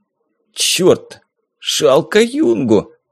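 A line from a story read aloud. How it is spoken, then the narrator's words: Hoarse wheeze. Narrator (Russian): просипел я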